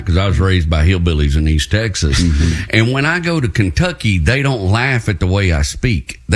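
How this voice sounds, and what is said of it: Appalachian accent. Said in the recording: “my accent is kind of Appalachian”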